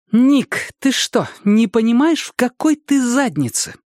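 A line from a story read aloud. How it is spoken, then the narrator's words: Through gritted teeth. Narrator (Russian): процедила Го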